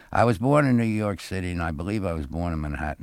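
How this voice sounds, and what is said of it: Urban Brooklyn New York accent. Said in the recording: “a really urban accent ... I sound just like I was born right in the heart of Brooklyn”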